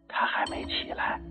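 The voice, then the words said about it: Speaking quietly, hushed. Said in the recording (Chinese): “小声的说”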